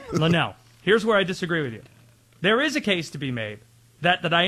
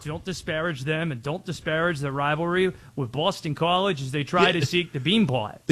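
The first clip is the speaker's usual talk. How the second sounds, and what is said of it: Attempted Boston accent. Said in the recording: “Is that you trying to do a Boston accent?”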